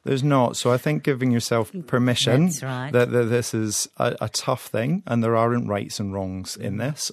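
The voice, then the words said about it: Speaks with a gorgeous accent. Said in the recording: “that gorgeous accent of yours”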